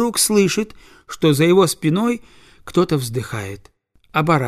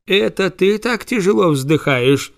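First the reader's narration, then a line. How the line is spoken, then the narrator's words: Plain. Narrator (Russian): спросил господин Карл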